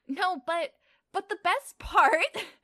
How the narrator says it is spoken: Lily gasped out between laughs

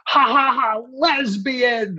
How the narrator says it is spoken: yells

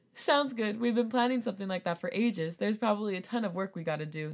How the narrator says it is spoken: Namjoon replied

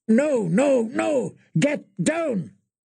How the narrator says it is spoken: His answered roar was full of fear and fury, full of pain

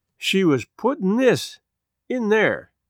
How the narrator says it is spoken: she said to herself, slowly

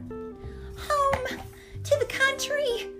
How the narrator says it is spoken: squeaked Annie

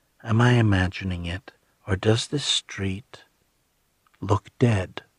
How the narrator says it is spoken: she said in a cautious, lowered tone

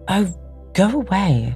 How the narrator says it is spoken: exclaimed Lady Caroline in English, suddenly exasperated

